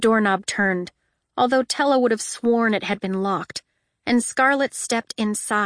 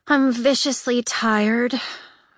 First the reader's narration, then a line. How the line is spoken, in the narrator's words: Tella moaned